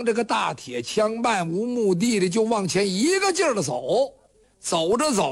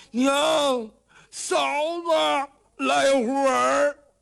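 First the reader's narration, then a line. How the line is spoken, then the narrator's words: Anxious foolish shouting. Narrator (Chinese): 罗士信傻小子一着急，这阵傻劲儿又上来了，就喊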